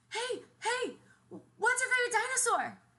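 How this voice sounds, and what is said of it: Child's voice. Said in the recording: “in my best kid voice.”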